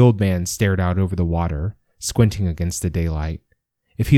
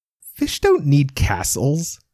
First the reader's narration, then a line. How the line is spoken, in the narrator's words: said Ivy between giggles